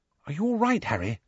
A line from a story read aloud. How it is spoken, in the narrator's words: Hermione whispered